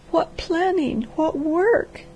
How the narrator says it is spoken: she sobbed

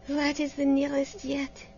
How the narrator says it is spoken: she murmured

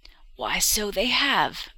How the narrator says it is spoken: exclaimed the old woman

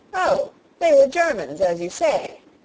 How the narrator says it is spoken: cried the colonel, excessively vexed at the necessity of explaining it all

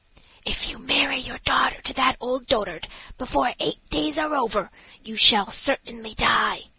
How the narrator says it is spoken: whispered in her ear

